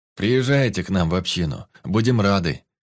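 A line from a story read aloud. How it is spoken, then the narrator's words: Deep bass voice. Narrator (Russian): пробасил Егорыч, скользнув виноватым взглядом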